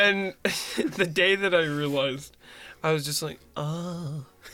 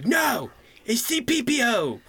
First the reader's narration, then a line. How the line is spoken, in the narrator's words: He would yell at us